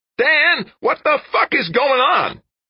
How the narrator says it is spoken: Kinski's voice, high, screeching

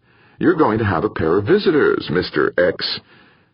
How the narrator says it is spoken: Nurse Norris said happily

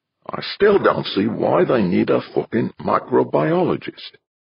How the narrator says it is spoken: muttered

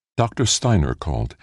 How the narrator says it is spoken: the computer's avatar said gently

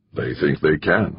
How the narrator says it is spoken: Halverson said

